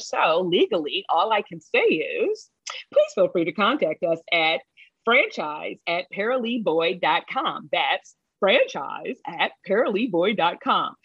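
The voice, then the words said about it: Mock newscaster voice. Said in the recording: “Did you like my newscaster voice?”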